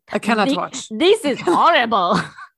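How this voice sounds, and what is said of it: Italian accent that sounds French. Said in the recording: “Why is my Italian accent very French?”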